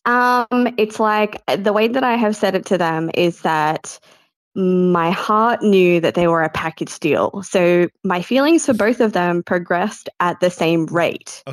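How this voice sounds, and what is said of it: Australian accent. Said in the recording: “What do they say in Australia? ... We love the accent. We love your voice.”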